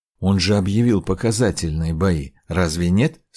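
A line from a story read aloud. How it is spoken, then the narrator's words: Plain. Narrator (Russian): спросил Трипта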